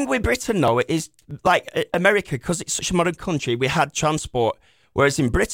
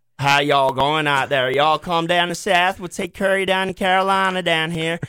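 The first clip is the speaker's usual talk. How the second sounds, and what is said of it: Exaggerated mock American Southern accent. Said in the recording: “We like to mock that accent too ... That's like the most jacked up accent I've so, ever heard ... British Southern accent”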